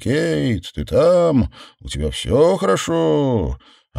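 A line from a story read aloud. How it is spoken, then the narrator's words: Neighbors calling out. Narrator (Russian): друзья и заботливые соседи кричали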